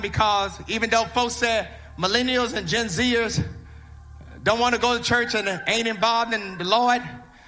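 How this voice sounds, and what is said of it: Shouting preacher delivery. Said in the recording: “I'm shouting. I'm shouting”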